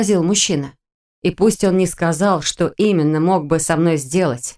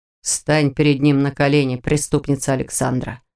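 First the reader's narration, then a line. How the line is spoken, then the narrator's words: Level, even tone. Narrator (Russian): ровным тоном произнес мужчина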